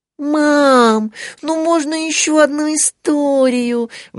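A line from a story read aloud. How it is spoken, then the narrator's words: Pleading. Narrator (Russian): взмолилась Мари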